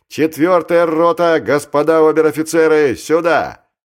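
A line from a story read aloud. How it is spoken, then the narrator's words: Bellowing at full voice. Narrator (Russian): Жданов орал во весь голос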